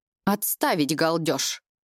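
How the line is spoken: Sharp bark, suddenly alert. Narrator (Russian): Резко рявкает магистр, моментально теряя сонный вид

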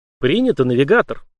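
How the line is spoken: Calm AI reply. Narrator (Russian): спокойно отозвался ИИ

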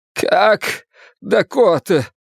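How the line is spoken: Strained, choked voice. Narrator (Russian): спросил сдавленным голосом

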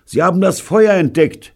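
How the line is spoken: Calling out. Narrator (German): rief Bunny

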